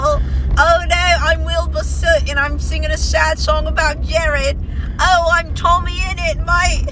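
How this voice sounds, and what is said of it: Mock British accent. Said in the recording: “One of my favorite things to do is mock British people, but I can't ... Even do a British accent well enough to mock them”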